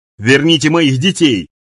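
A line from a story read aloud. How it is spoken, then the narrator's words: Shout. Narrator (Russian): закричал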